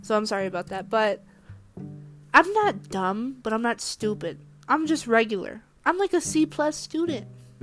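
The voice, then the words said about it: Congested, sick-sounding voice. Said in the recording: “I have a cold”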